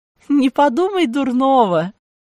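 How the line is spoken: Laughing. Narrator (Russian): засмеялась фрау Хильда

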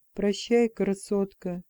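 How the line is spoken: Soft. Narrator (Russian): мягко сказал он

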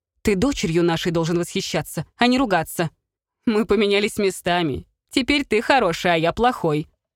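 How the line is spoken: Laughing loudly. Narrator (Russian): расхохотался он

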